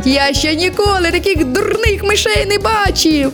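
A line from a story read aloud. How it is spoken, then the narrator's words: Laughing. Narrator (Ukrainian): Розсміялося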